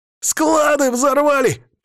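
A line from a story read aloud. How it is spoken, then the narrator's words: Hysterical shout. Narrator (Russian): прокричал истерично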